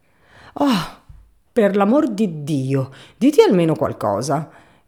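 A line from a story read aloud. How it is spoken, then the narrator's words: Angry exclamation. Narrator (Italian): esclamò con voce irata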